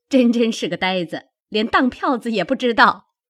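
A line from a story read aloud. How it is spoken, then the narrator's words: Group laughing. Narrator (Chinese): 众人笑道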